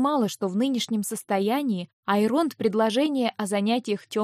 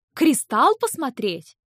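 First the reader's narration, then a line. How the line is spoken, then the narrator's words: Nervous laugh. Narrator (Russian): Я нервно рассмеялась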